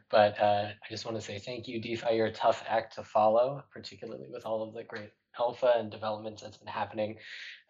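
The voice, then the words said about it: Slightly sick-sounding voice. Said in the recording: “apologize for my voice. I'm ever so slightly under the weather”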